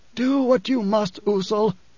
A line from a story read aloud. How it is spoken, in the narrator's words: Othame wheezed